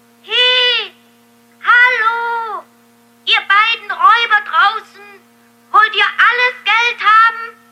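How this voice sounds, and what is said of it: Loud shouting voice. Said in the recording (German): “Schrei nicht so laut! ... Aber Daumestick strengte seine Stimme noch mehr an.”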